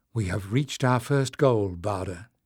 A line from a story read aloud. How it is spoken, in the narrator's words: murmured